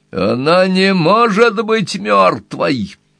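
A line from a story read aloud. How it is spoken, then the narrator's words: Screaming. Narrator (Russian): завопила Энни Уилкс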